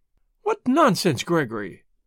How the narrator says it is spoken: said sharply

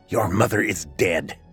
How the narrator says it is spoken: snapped Marcia

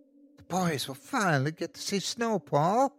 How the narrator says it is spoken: Susan squealed

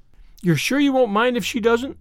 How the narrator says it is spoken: said Paul anxiously

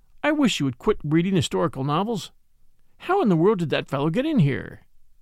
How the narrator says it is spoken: said calmly

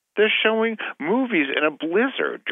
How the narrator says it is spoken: Georgie screamed

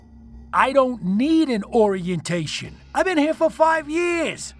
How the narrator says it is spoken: shouted defensively

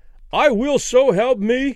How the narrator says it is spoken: Danny cried with abrupt conviction

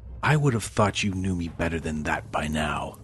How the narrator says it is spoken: she whispered quietly

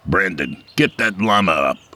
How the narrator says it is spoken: he barked

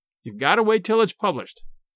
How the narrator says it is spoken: he said

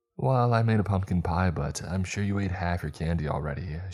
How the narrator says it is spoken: she said

